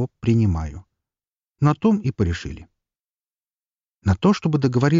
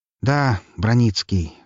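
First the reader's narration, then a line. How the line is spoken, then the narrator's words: Sigh. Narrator (Russian): вздохнул я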